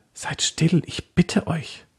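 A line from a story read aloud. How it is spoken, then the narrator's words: Whisper. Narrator (German): Susanne flüsterte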